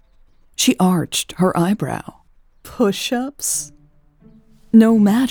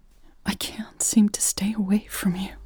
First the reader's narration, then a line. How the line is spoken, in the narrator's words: Elle whispered